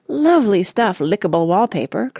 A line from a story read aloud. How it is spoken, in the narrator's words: cried Mr